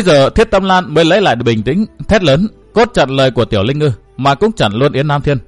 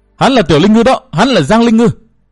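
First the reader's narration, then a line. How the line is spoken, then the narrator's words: Shouting over others. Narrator (Vietnamese): Yến Nam Thiên cũng hét, át hẳn tiếng hét của Thiết Tâm Lan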